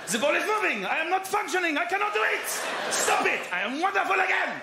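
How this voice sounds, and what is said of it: Put-on German accent. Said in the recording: “Why am I German? ... Why am I German?”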